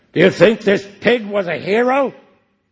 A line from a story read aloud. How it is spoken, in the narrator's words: he bellowed